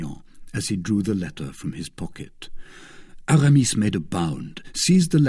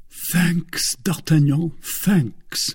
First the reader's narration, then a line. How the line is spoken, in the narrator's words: cried Aramis, almost in a state of delirium